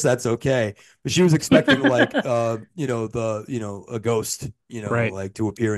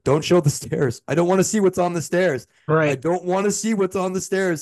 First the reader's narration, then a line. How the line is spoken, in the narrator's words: she actually gasped and was like